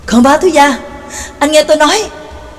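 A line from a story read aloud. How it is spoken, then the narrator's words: Shouting even louder. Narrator (Vietnamese): Nhạc Dương cũng hét lên còn lớn hơn ác ca giọng của gã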